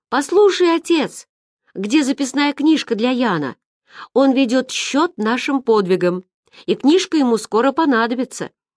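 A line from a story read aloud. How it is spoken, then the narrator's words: Shouted after someone. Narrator (Russian): Сэм крикнул ему вдогонку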